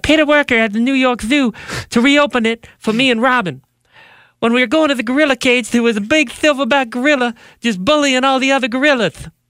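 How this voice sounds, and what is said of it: Imitates another person's voice. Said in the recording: “my Mike Tyson impression”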